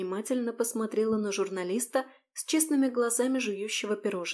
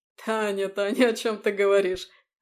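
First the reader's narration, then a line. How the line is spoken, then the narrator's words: Laughing. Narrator (Russian): Рассмеялся Горелов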